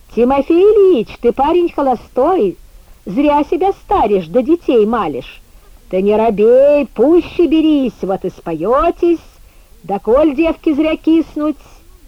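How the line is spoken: Insolent shouting. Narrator (Russian): закричали вслед нам нахально

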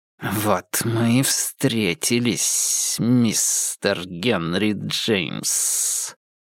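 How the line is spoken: Hiss. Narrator (Russian): прошипел Мориарти

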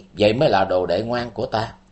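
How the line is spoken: Soft smiling. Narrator (Vietnamese): Vì Thế Mổ khẽ mỉm cười và nói

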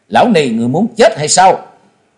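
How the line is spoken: Shout. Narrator (Vietnamese): Miệng quát

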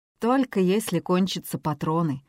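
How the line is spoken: Gloomy explanation. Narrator (Russian): мрачно объяснил Йован

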